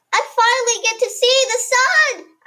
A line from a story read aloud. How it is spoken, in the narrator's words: I yelled merrily